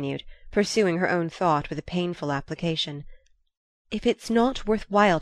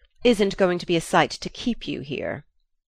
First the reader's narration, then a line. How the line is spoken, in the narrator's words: he said savagely